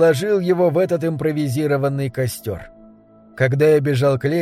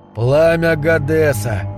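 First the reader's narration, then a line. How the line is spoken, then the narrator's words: Muttered. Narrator (Russian): пробормотал я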